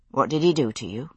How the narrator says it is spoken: I asked, and was surprised that my voice sounded calm

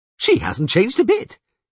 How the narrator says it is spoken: he said cheerfully

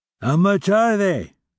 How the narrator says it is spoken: cried Grantaire

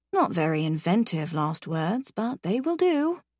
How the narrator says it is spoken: I murmur

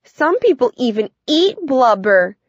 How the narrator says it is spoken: Caroline shrieked

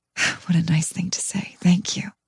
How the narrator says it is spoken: Feeling shy, whisper

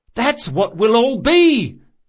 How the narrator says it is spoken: he shouted

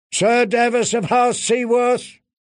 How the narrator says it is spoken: he called in a ringing voice

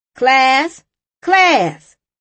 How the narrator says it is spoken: she called out

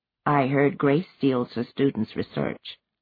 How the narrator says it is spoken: Shan lowered her voice and said to Ifemelu

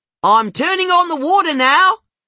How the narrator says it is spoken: she yells

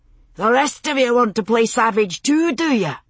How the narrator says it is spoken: Jamie shouted

